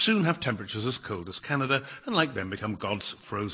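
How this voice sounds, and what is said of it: Usual voice. Nothing is said of it.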